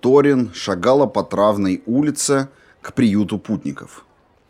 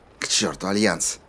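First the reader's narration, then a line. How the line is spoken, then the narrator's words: Whisper. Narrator (Russian): прошептала Корал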